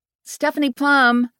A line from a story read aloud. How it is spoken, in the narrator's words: I yelled back